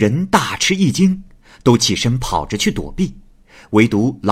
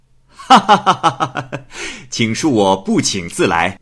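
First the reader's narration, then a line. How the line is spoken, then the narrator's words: Laughing. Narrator (Chinese): 耿生大笑着说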